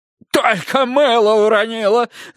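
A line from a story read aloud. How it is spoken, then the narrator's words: Shout to audience. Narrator (Russian): закричал капитан, обращаясь к зрителям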